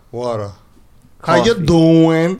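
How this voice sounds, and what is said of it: Staten Island New York accent. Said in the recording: “Like a whole different New York accent. That's like I don't know. It's like its own thing. ... They say water without a T”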